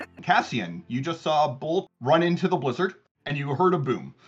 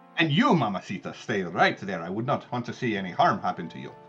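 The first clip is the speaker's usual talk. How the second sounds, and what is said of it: Flirtatious character voice with accent. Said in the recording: “He has an accent and he's a flirt.”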